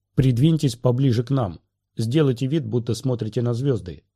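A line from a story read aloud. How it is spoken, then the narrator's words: Calm command. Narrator (Russian): спокойно скомандовал Мейс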